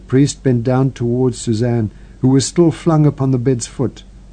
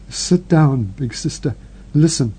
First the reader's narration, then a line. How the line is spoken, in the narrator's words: Marguerite, shivering from head to foot, shaking her whole couch with nervous movements, stammered